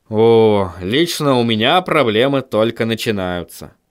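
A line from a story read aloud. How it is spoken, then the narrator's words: Sighed. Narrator (Russian): вздохнул Вильям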